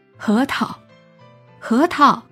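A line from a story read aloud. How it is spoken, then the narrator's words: Repeated calling. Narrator (Chinese): 他一声声喊着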